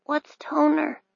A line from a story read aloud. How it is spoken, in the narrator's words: mumbled